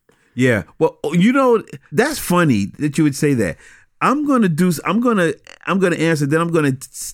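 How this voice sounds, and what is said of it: Brooklyn accent. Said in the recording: “the accent that you have... That Brooklyn brogue.”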